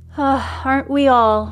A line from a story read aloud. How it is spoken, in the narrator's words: sighs